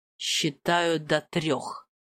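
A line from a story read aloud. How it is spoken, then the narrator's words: Growled. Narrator (Russian): прорычала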